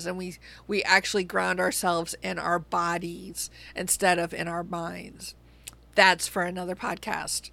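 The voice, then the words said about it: Strained, hoarse, fading voice. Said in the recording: “I appear to be losing my voice today ... this allergy season”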